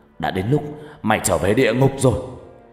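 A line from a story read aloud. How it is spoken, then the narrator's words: Angry shout. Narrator (Vietnamese): Phát giận dữ quát lớn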